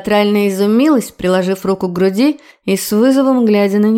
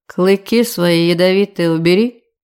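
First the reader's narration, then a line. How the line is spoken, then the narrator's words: Calm command. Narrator (Russian): Все так же спокойно приказал он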